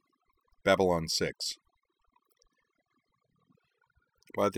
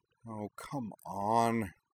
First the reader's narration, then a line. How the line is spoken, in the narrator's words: Kaname muttered